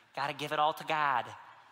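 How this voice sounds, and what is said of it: Hard Michigan accent. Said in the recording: “a mom who has a hard Michigan accent.”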